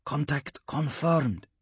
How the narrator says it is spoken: she murmured into the combead

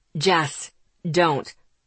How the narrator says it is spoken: Asher ordered, his voice hard

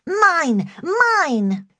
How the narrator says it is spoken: she cried

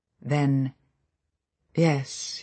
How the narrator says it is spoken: he said, his voice without expression

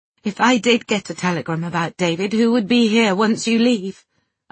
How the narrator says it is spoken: I sobbed

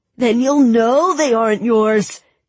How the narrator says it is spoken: bellowed

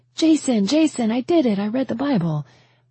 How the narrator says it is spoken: I came running into the living room shouting

